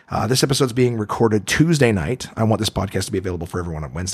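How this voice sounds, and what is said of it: Dry, hoarse, tired voice. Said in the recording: “I'm I'm exhausted. I'm I'm super dry and hoarse still.”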